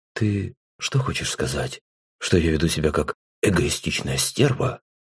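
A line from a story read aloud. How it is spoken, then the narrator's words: Quiet, head lowered. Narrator (Russian): Тихо, не поднимая головы, произнесла она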